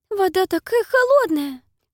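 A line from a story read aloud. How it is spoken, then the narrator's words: Very high squeaky complaint. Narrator (Russian): жалуется Пиппа очень высоким песклявым голосом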